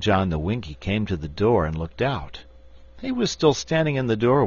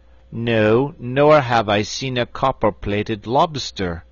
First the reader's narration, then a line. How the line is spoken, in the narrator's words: replied Will John in an equally haughty tone